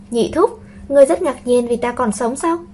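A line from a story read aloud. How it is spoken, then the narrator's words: Smiling. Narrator (Vietnamese): mỉm cười nói với Tây Lương Hòa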